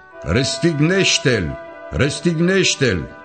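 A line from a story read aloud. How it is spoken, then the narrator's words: Crowd shouting. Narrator (Romanian): preoții cei mai de seamă și aprozii, au început să strige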